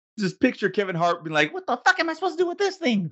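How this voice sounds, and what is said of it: High-pitched imitation of another person. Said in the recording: “my best Kevin Hart impersonation with his high-pitched voice”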